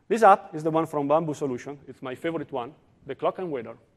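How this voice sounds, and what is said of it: Italian accent in English. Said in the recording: “I'm from Italy, as you can understand from my accent.”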